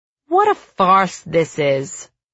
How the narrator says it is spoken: one of the fat yellow birds grumbles as he stuffs his face

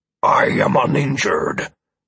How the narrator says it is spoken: Amaranth answered angrily, letting out a low growl

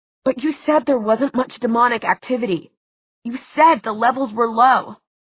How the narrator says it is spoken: Alec, in a choked voice, said

